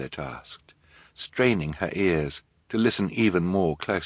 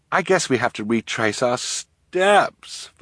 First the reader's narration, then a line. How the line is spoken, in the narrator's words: Violet said miserably